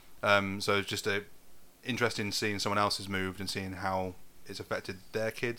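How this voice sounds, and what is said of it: Posh non-northern English accent. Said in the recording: “As you can tell, I've not really picked up the accent too much ... I used to get mocked for being posh ... I'm going to keep my fucking accent the way it is”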